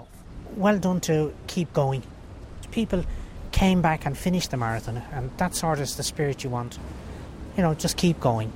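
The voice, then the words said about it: Irish Dublin accent. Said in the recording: “his lovely accent, he's from Dublin, Ireland”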